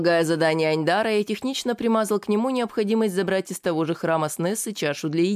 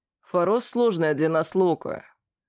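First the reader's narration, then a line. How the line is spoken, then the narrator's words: Grumbling. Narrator (Russian): наконец проворчал он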